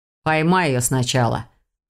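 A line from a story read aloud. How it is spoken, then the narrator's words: Scornful snort. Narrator (Russian): фыркнул собеседник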